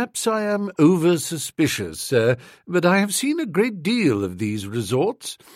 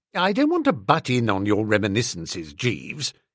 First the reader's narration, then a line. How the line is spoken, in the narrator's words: I said coldly